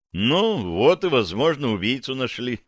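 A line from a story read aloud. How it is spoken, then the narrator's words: Sighing. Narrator (Russian): вздохнул я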